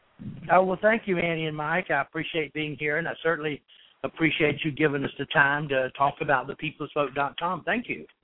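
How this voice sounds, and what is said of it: Georgia accent. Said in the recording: “Where's that accent from, my friend? ... New York? No, I'm from Georgia originally.”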